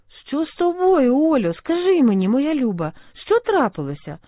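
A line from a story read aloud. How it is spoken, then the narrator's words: Worried exclamation. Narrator (Ukrainian): вигукнула стурбована Саша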